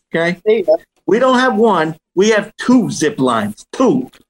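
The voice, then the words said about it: Thick put-on New York accent. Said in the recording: “my thickest New York accent”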